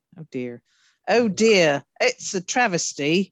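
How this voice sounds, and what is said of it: Put-on British accent. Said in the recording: “You don't care for me accent? ... I think I sound properly British.”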